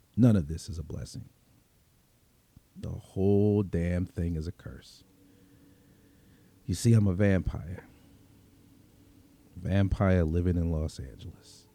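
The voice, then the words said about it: Brooklyn accent. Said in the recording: “I was born and raised in Brooklyn, in case you couldn't tell from the accent. ... still sound like I'm walking the streets of Bensonhurst.”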